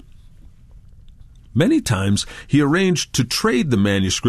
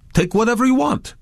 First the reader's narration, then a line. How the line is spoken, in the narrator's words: the owners exclaimed joyfully